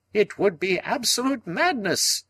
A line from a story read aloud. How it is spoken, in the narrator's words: cried Summerlee